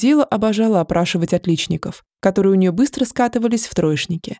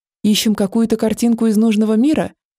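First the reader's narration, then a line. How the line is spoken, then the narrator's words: Confused young woman. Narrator (Russian): Растерянно предположила наша первая красавица и модница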